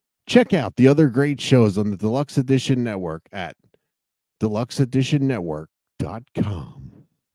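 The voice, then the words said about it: Big radio announcer voice. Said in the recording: “your best announcer voice... your best big radio voice... Oh, that was sexy. That was much better.”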